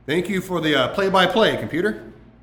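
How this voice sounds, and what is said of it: Sarcastic tone. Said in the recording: “That was sarcasm,”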